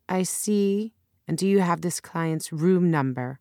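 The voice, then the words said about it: Slight Chinese accent. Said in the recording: “with a slight Chinese accent.”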